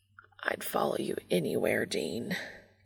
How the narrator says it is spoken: Castiel mutters

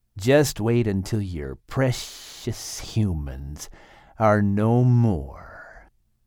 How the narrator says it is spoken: Charlatan hissed under his breath

